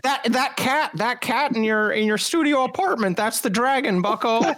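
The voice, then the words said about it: Jordan Peterson impression. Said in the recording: “Say that with J.B. Jordan Peterson accent.”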